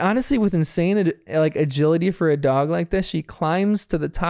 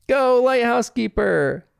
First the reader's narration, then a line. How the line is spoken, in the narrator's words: Bingo and Bluey both yell